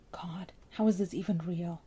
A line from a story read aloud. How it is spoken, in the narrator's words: Ray whispered